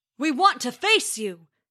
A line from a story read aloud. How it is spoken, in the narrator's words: bellowed Thor